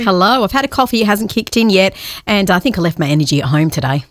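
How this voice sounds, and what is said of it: Very fast talking. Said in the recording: “Maybe the speed at which you're talking.”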